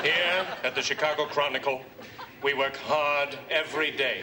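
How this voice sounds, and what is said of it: Exaggerated performance voice. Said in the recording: “What was that voice? What happened to your regular voice? ... Modulated to performance level”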